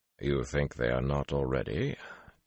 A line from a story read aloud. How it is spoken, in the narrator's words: Taim murmured